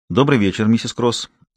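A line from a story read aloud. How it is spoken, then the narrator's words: Businesslike tone. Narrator (Russian): сказала обычным деловым тоном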